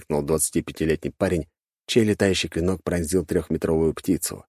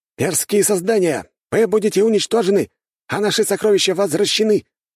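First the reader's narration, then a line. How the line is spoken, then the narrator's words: Shouted. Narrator (Russian): выкрикнул другой лучник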